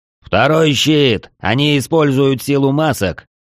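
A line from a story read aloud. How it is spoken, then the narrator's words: Shouted command. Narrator (Russian): Ард выкрикнул новую команду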